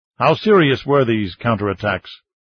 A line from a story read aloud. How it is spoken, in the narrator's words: Tong asked